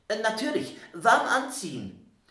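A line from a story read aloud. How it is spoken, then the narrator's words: Sudden call. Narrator (German): rief Herr Wundersam plötzlich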